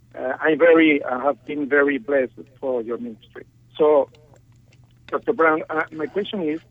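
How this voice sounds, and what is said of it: Non-native accented English. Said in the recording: “I would like to apologize for my English, for my accent”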